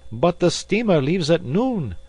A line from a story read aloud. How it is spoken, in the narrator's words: observed Passepartout nervously